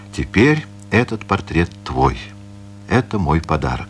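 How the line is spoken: Solemn. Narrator (Russian): торжественно сказал

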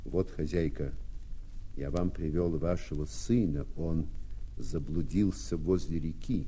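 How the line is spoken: Embarrassed mumble. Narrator (Russian): Рабочий смутился и пробормотал

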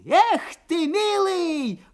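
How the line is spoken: Old man's squeal. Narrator (Russian): взвизгнул дед

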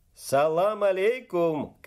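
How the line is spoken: Shout. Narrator (Russian): крикнул

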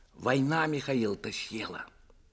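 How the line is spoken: Plain. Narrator (Russian): сказала Лиска

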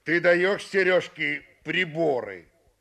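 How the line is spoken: Rude question. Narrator (Russian): Смурый грубо спросил меня

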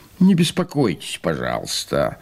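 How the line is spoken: Grumbling. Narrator (Russian): проворчал и господин Вольный

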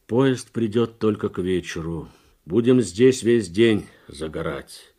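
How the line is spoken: Tired driver explaining. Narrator (Russian): устало объяснял шофер

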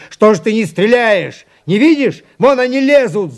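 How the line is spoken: Furious yell. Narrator (Russian): заорал Лопахин

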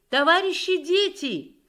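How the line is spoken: Shout from below. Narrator (Russian): крикнула снизу дежурная МПВО

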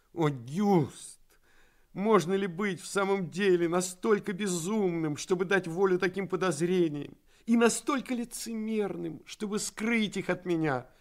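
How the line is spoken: Laugh, then serious. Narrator (Russian): рассмеялась, затем, сделавшись снова серьезной, сказала

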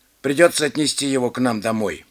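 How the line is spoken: Plain. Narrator (Russian): сказал мужчина

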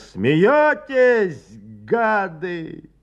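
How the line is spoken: Forceful angry shout. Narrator (Russian): он с силой выкрикнул

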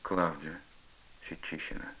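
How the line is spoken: Sighing confession. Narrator (Russian): Пашка вздохнул и признался

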